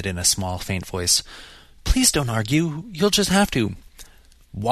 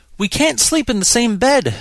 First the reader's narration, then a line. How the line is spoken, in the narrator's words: she wailed